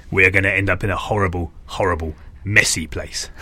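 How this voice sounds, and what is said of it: Impression of another man's voice. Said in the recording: “quite a good impression of him”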